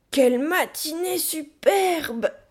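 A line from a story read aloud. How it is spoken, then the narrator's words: Exclaimed. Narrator (French): s'écria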